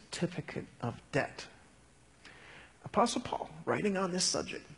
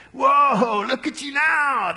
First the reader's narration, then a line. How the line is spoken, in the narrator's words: they yelled